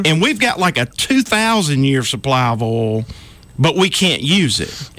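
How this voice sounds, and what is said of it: Southern American accent. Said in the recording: “He has an awesome accent. He's a real Southerner, or he sounds like one.”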